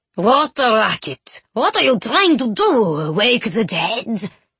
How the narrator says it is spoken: the spooky madame herself, cackling merrily

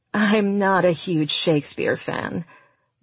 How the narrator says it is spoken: Daphne chuckled

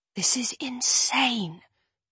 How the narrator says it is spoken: I whisper

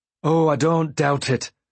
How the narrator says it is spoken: he replied bitterly

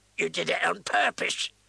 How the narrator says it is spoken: the woman screeched

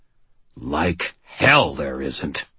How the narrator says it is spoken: I snarled

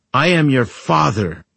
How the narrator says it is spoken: Angel shouted

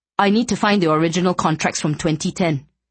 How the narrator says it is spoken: he said urgently

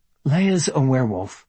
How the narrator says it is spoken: Anna said dryly

